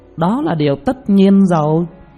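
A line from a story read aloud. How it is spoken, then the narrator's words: Dismissive thin smile. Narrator (Vietnamese): Vô Nguyệt đạo trưởng cười nhạt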